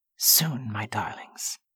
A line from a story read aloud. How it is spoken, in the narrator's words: he whispered